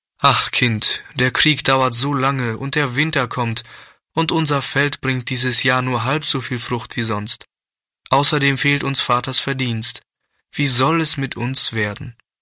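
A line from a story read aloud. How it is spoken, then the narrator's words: Sad, despondent mother. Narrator (German): Oft war die Mutter verzagt, dann sagte sie traurig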